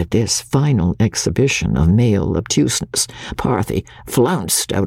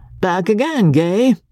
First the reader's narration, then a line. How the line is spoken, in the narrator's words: he of the keen gaze had exclaimed